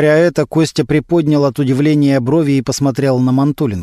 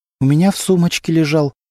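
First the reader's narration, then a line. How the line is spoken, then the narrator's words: Trembling voice. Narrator (Russian): дрожащим голосом ответила Антонина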